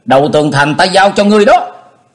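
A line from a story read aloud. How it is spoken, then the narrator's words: Urgent cry. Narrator (Vietnamese): Diệp Linh Tô kêu lên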